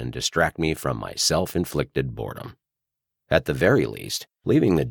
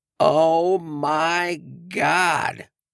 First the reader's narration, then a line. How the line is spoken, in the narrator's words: a crisp, penetrating voice exclaimed